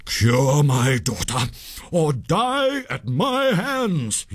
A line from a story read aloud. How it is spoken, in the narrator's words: he cried in a terrible voice